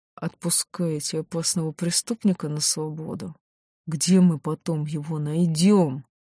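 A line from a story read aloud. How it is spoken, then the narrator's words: Restrained hiss through teeth. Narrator (Russian): Старший, еле сдерживая эмоции, сквозь стиснутые зубы прошипел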